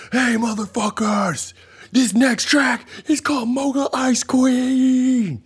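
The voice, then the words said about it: Yelling announcer voice. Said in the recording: “why do you always do it in a yelling announcer voice?”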